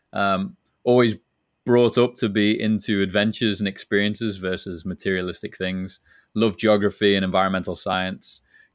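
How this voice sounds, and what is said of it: Liverpool English accent. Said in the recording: “you can tell from my accent, not originally from San Diego ... originally from Liverpool, England”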